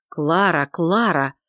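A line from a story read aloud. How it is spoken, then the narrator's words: Reproachful exclamation. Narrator (Russian): с упреком в голосе воскликнул лорд Уинсли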